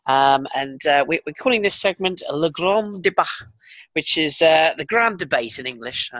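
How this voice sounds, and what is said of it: Deliberately bad French accent. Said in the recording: “That's a terrible French accent there”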